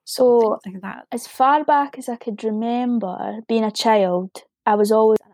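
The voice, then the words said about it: Scottish brogue accent. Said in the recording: “from Scotland ... where ... from, with your lovely brogue accent that I just love”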